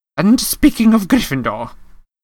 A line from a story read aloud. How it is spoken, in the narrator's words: Professor McGonagall said sharply